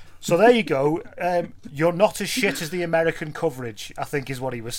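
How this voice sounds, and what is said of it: Usual voice. Nothing is said of it.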